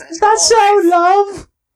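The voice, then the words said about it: Put-on British accent. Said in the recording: “the entire episode we will be speaking in British accents ... my only British accent”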